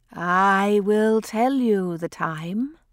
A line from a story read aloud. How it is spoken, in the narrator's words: said Septimus, very slowly, very drowsily, smiling mysteriously